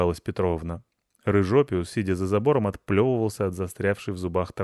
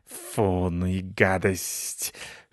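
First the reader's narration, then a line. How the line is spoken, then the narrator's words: Hissing. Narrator (Russian): шипел он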